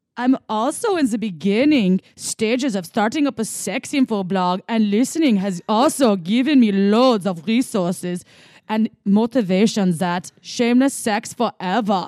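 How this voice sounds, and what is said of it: Put-on German accent. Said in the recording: “Okay, German, here we go ... If reading in German accent, please ... I'm sorry my German wasn't as good in the beginning. I needed to warm that one up”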